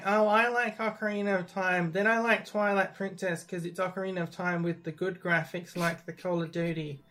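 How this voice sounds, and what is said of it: Mocking voice of a casual commenter. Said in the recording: “That's my Facebook commenter's impression”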